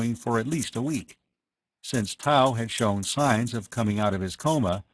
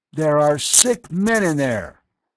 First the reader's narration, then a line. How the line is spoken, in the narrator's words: Hovan's voice boomed out